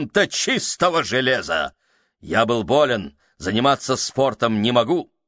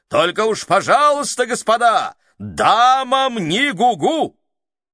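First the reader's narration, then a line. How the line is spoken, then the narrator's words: Loud shout. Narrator (Russian): капитан громко кричал нам вдогонку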